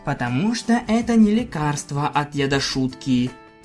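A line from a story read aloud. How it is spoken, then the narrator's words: Sad mutter. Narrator (Russian): с грустью пробурчал я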